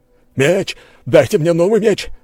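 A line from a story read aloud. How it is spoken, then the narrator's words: Shrieking. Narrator (Russian): завопил он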